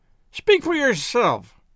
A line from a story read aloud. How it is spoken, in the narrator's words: cried Miss Baedeker violently